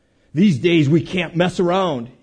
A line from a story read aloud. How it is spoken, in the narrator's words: he growls